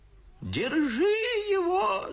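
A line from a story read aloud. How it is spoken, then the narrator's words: Shrieking. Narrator (Russian): завизжал Федор Павлович, только что завидел опять Дмитрия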